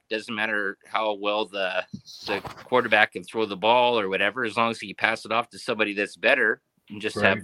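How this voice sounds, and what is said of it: Canadian accent. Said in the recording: “your Canadian accent”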